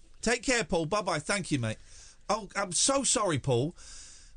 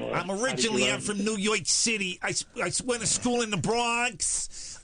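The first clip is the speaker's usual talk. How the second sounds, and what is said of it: American New York accent. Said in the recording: “your American accent is really good”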